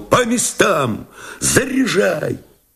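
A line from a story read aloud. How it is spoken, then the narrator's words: Shout. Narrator (Russian): он крикнул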